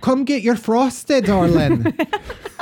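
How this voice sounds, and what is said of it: Put-on Irish accent. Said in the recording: “I can actually do a pretty good Irish accent.”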